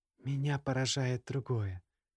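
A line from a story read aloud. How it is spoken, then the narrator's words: Quiet. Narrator (Russian): тихо произнесла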